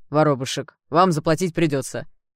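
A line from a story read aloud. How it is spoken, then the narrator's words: Stern officer. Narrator (Russian): ответил офицер, который пониже, строго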